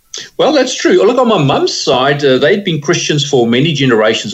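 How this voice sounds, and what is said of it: South African accent. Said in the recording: “that beautiful South African accent”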